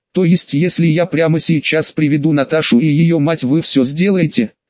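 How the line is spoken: Plain. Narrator (Russian): спросил я

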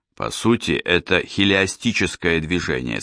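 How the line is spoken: Plain. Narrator (Russian): сказал Джейс

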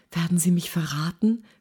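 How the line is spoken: Whispering. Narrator (German): flüsterte sie

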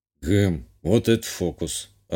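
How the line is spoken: Puzzled mutter. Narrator (Russian): озадаченно буркнул себе под нос

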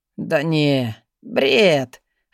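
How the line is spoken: Muttering. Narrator (Russian): пробормотал

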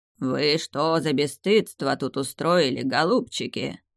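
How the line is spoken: Hoarse rasp. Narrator (Russian): прохрипело оно

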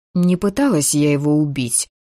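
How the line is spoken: Nervous grumble. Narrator (Russian): пробурчала я, невольно заволновавшись

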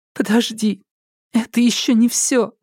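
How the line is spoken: Sobbing. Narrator (Russian): всхлипнула Елена

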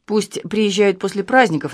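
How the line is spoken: Grumbling. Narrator (Russian): наконец пробурчал он

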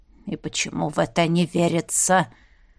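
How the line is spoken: Skeptical mutter. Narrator (Russian): пробормотал Змей Горыныч, скептически

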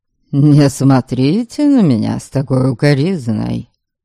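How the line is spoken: Disdainful snort. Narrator (Russian): Пренебрежительно фыркнул Норберг

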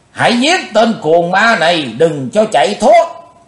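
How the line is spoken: Shout. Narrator (Vietnamese): Liền trong tiếng hét, đào phu nhân

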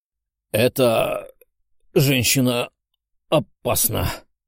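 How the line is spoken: Mumble. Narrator (Russian): пробормотал чудом выживший парень

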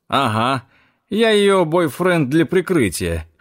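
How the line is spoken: Short laugh. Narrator (Russian): хохотнул Зак

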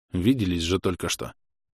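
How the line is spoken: Grumbled mutter. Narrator (Russian): буркнул

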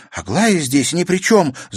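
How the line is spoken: Passionate exclamation. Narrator (Russian): с жаром воскликнула Катерина

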